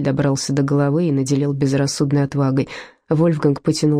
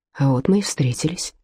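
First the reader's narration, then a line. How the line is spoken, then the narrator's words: Quiet. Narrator (Russian): тихо сказал он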